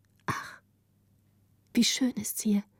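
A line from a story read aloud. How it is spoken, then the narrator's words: Whispering together, delighted. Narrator (German): sagte Gritta mit den anderen flüsternd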